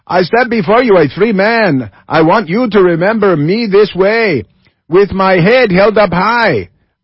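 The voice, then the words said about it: Put-on foreign accent. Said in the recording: “Then I'll do it with an accent.”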